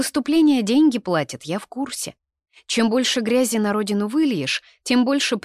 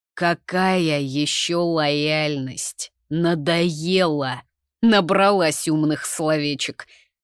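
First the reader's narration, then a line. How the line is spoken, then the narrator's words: Interrupting angry growl. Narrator (Russian): зарычал он, не дав мне договорить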